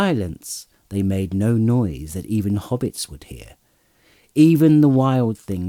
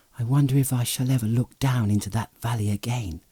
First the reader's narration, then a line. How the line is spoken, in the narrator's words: he said quietly